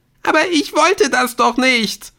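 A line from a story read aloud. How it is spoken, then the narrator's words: Screaming. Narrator (German): Jetzt schrie sie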